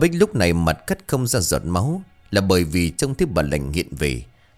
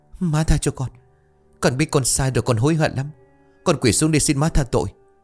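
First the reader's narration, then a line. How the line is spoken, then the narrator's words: Trembling, tearful pleading. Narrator (Vietnamese): Bà Bích quỳ thụp xuống, nước mắt ngắn dài tuôn ra một giọng đầy run rẩy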